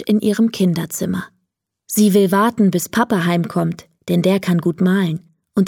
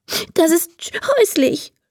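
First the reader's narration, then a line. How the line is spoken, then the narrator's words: Sobbing. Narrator (German): schluchzt Emma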